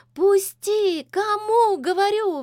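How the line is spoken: Shrieking. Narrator (Russian): визжала Лизавета

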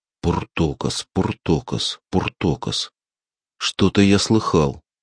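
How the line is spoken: Muttering. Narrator (Russian): Ксёнс, нахмурив брови, бормоча

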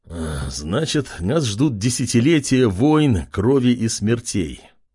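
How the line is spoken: Knight's sigh. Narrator (Russian): вздохнул рыцарь

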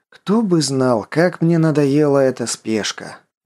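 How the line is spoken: Weary. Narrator (Russian): устало произнес Константин

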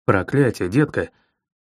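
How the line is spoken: Quiet grumble. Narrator (Russian): Тихо ворчу я

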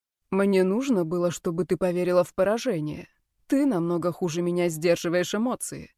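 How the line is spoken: Soft whisper. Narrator (Russian): тихо прошептал Брайан

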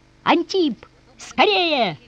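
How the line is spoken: Shouting. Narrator (Russian): кричал он

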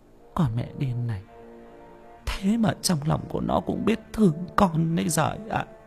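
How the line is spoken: Muttering. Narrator (Vietnamese): bà nội miệng lẩm bẩm

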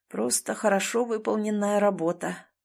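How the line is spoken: Muffled, openly proud. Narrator (Russian): глухо, но с нескрываемой гордостью произнес Захар

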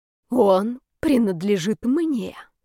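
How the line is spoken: Hoarse repetition. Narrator (Russian): повторила она хрипло

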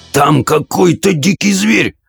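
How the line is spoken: Hoarse wheeze. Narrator (Russian): просипел он

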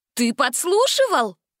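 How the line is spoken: Indignant shout. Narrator (Russian): Возмущенно закричала Гретель

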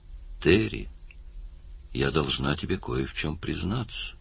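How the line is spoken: Quiet. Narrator (Russian): тихо сказала

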